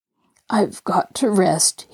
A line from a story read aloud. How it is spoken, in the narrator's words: he murmured, his voice shaky from fatigue